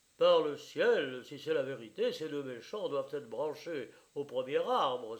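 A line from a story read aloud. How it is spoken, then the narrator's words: Angry exclamation. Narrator (French): s'écria Bertrand de Poulangy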